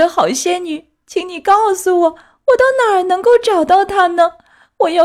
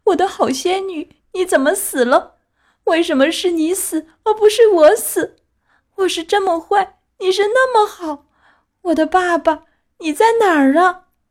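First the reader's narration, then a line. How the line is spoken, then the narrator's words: Crying. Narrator (Chinese): 他哭着说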